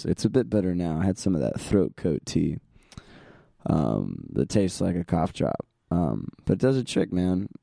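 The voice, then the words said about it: Hoarse, raspy voice. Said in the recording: “my horrible-sounding voice this week ... it sounds a bit like sandpaper on asphalt ... My voice is a bit hoarse.”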